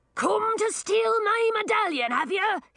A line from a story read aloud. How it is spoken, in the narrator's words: He screamed